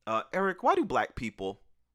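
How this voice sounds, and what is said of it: Impression of a woman. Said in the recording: “really good impersonation of the woman who asked”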